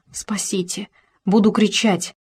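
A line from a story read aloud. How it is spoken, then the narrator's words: Whisper. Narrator (Russian): прошептала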